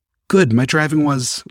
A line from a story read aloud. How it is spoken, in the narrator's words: I stammered